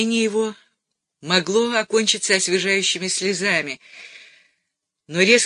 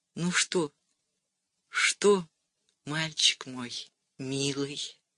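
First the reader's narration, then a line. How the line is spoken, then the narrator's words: Barely audible mouthed question. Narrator (Russian): Валя спросила чуть слышно одними губами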